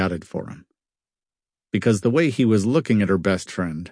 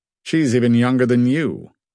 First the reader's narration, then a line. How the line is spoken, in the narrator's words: said curtly